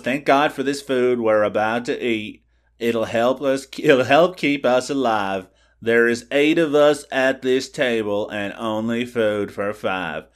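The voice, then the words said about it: Impression of a movie character. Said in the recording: “It's a pretty good impression, actually.”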